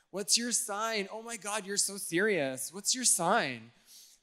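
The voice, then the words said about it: Exaggerated put-on girly accent. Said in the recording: “I really am just preaching this message so I have an excuse to do the accent.”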